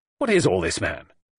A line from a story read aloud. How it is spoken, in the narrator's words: said Roberts impatiently